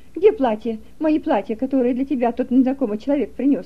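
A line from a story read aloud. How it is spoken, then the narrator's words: Shouting. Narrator (Russian): Кричала Ингер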